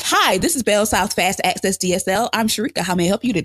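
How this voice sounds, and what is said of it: Polished customer-service phone voice. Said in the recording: “put on my voice I used to use when I worked at the call center ... I would talk like that.”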